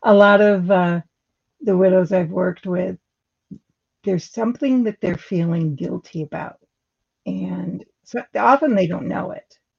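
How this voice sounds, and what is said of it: Strained, failing voice. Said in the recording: “excuse me, I'm losing my voice.”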